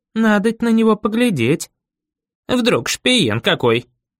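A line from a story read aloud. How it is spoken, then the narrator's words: Angry, frightened woman. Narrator (Russian): присоединилась другая, злобно, испуганно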